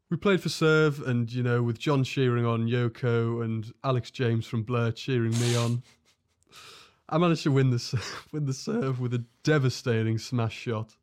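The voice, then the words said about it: Poor put-on English accent. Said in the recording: “This is the worst accent I've had in my life. ... It sounds like John Lydon.”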